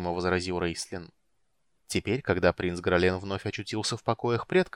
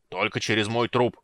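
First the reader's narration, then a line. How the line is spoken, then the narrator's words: Growl from darkness. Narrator (Russian): прорычал Флинт из темноты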